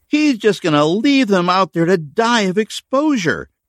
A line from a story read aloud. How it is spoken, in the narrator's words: Becca cried with shock and disbelief